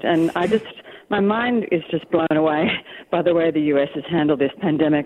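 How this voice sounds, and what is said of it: Australian accent. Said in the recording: “obviously I'm Australian, you can tell by my accent.”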